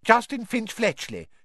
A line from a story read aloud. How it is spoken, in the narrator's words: he said brightly